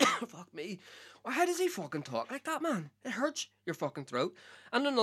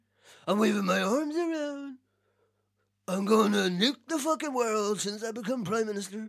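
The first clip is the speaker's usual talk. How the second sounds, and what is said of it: Imitates another person's voice. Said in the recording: “I cannot do a fucking Donald Trump impression ... I heard it a tiny little bit ... See, I heard it there.”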